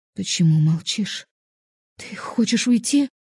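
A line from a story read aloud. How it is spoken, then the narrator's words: Startled, frightened. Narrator (Russian): испуганно встрепенулась Евгения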